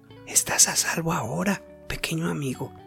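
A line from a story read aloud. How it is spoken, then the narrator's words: Smiling whisper. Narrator (Spanish): susurró Pedrito con una sonrisa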